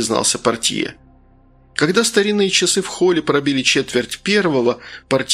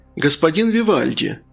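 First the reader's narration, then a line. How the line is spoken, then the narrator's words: Sugary sing-song voice. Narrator (Russian): сахарным голоском пропел портье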